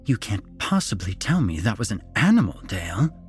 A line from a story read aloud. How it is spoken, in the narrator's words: Eleanor hissed